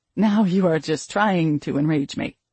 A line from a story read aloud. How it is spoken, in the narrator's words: I growled